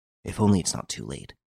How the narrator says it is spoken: He muttered

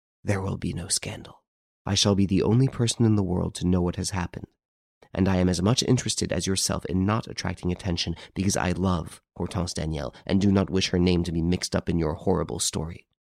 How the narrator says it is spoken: Renine whispered

